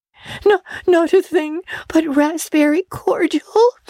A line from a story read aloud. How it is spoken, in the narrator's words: sobbed Anne